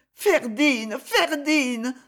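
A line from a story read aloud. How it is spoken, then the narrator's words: Sobbing into a dress. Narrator (French): sanglota-t-elle, son visage dans la robe que sa maladresse avait inondée le premier jour et que ses larmes arrosaient maintenant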